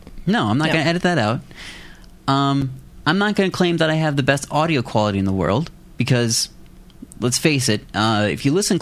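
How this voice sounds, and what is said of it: Midwestern American accent. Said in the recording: “your little Midwest accent”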